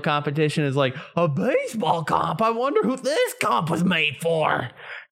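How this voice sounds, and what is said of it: Conspiracy theorist character voice. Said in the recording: “I love that voice you just did. That was great ... It's my conspiracy theory voice.”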